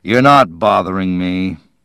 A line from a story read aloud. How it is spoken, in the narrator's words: Al said as he gloomily watched